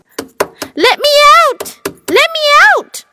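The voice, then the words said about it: Loud shouting. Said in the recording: “shouted in a loud voice”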